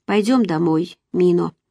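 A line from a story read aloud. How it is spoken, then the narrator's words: Weak voice. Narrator (Russian): Слабым голосом я сказала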